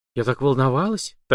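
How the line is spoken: Secret whisper. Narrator (Russian): тайком шепнула Калашникова

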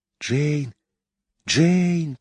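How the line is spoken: Whispered. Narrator (Russian): прошептал Майкл

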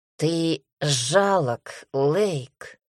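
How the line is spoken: Hoarse father's voice. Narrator (Russian): раздался хриплый голос отца

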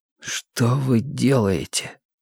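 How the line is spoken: Hoarse question. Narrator (Russian): спросил Мэтью хрипло

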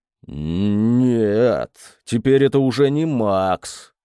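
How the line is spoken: Drawn-out drawl. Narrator (Russian): протянул он

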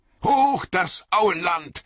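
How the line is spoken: Calling out. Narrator (German): rief Aragorn

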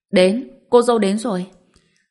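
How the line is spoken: Shout over merry crowd. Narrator (Vietnamese): Trong tiếng cười nói rôm rả của mọi người, không biết ai đã hét lên

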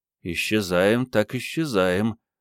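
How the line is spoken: Mumbling. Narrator (Russian): промямлил Генка

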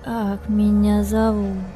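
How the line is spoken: Hoarse rustling voice. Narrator (Russian): Голос у нее был хриплый, с каким-то лиственным шелестом

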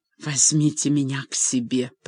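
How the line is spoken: Hoarse commanding whisper. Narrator (Russian): приказал хриплым шепотом

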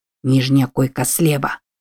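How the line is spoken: Whispered. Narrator (Russian): прошептал Вуд

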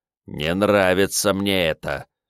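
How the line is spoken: Displeased grumble of spirit. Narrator (Russian): недовольно пробурчал Мэдзи, который сейчас был лишь простым духом

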